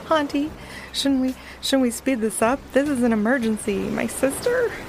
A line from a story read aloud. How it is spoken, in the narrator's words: Tuffy, starting to nervously tippy-tap his front paws on the ground, blurted out